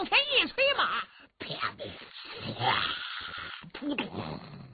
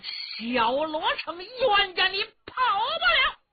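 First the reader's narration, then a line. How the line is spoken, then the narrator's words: Loud shouting. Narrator (Chinese): 他高声喊嚷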